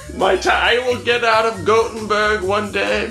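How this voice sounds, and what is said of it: Put-on Swedish accent. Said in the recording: “That was my Swedish accent.”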